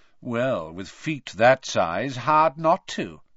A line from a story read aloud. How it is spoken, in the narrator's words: said a drawling voice